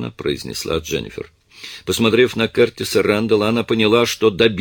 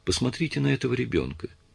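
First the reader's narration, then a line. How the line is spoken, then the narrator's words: Quiet. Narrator (Russian): тихо сказала Дженнифер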